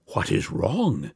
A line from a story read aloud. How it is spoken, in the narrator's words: whispered the minister in some concern